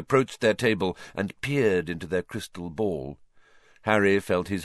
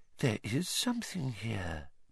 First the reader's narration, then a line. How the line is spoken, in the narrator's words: Professor Trelawney whispered